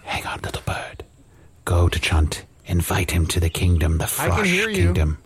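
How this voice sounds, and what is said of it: Whispering. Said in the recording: “I'm whispering to a bird.”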